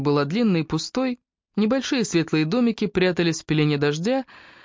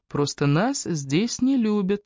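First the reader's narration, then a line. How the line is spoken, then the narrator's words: Calm. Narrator (Russian): спокойно ответила Эбби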